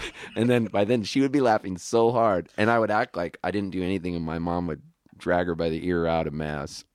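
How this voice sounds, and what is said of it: Usual voice. Nothing is said of it.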